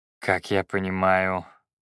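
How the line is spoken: Said with a slight sigh. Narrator (Russian): проговорил он, слегка вздохнув

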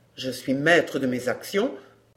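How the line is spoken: Cold reply. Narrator (French): répliqua froidement Julien

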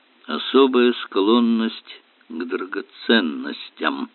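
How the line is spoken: Muttered. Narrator (Russian): пробормотал Эллери

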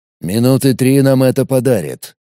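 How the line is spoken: Even tone. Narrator (Russian): ровным тоном произносит

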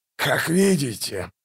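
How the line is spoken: Hoarse wheeze. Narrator (Russian): прохрипел он

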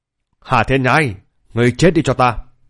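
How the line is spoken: Furious roar. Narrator (Vietnamese): Hắc y giận gầm lên

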